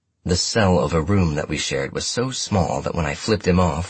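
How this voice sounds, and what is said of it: Usual voice. Nothing is said of it.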